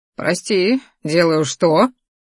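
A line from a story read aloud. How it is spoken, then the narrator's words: Snort. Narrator (Russian): хмыкнул он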